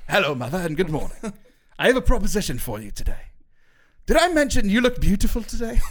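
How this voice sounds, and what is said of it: Bad put-on British accent. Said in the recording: “my bad British accent”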